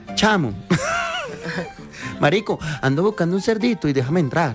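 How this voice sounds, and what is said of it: Put-on Venezuelan accent. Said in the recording (Spanish): “Venezolano ... Cierre con venezolano ... el venezolano”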